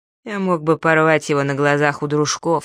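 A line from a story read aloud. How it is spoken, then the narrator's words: Calm, matter-of-fact. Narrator (Russian): спокойно сказал Найлз, как о чем-то само собой разумеющемся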